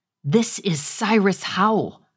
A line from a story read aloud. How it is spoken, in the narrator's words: I growled at him